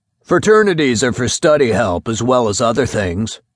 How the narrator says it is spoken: grunted Baumgartner

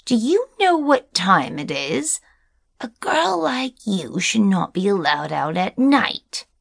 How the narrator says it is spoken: screeched

